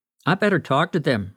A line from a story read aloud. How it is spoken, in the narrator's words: Rick said